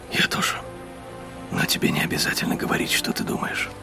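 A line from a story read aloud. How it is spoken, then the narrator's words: Whisper. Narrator (Russian): прошептал Ксейден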